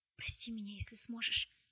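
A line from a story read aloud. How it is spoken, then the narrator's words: Whisper. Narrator (Russian): прошептала Тесса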